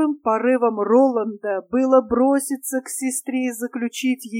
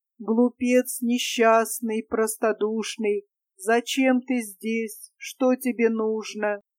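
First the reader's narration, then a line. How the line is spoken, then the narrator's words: Hollow sepulchral voice. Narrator (Russian): произнесла глухим замогильным голосом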